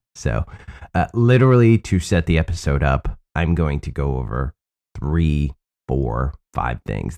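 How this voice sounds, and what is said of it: Sick-sounding voice. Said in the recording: “if you can hear it in my voice, I'm still sick.”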